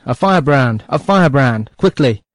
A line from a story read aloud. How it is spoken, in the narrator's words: as I shouted